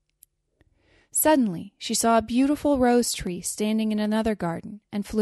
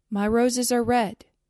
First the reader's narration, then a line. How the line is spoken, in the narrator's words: it answered